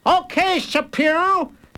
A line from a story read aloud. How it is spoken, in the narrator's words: shouted